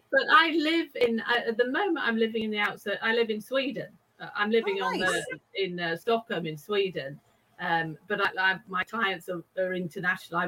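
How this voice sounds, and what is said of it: British accent. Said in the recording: “I am actually British, which you can probably tell by just, my accent.”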